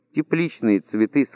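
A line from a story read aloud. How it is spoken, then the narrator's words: Plain. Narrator (Russian): сказала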